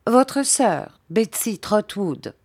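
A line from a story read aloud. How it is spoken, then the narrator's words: Plain. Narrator (French): dit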